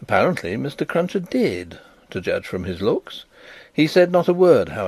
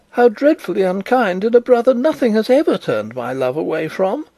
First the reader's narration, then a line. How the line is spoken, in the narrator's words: cried Miss Pross